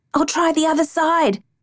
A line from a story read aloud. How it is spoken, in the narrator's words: I shouted